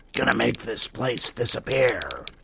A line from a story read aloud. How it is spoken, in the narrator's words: he growled